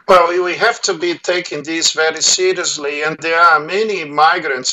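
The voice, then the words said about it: Brazilian accent. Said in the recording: “listeners can hear you've got an accent, a Brazilian accent”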